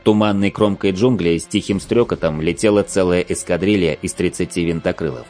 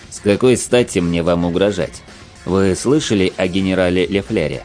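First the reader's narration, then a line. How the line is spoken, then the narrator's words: Calm question. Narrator (Russian): Спокойно спросил я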